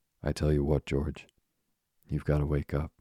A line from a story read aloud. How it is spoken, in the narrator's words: he said sharply